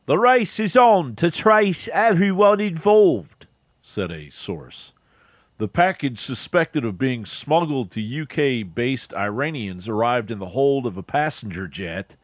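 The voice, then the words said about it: Put-on English accent. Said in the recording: “I'll do my English accent.”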